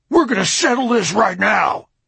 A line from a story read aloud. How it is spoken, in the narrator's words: His deep, husky voice boomed around the courtroom